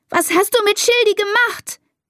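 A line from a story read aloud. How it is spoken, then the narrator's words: Shout. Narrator (German): schreit sie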